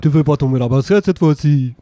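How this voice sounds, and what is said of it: Put-on Swiss-sounding accent. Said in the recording (French): “je fais les accents ... Strasbourg ... c'est suisse que tu viens de faire, en fait ... c'est Ovo Maltine que tu fais”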